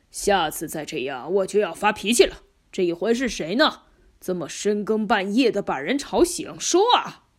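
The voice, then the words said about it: Gruff, suspicious character voice. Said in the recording (Chinese): “一个粗暴和疑神疑鬼的声音说”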